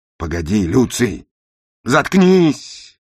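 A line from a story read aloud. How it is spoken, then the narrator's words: Shouted. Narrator (Russian): прокричал я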